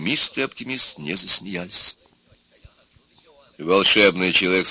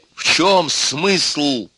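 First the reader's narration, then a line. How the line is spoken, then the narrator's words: Plain. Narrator (Russian): спросил оптимист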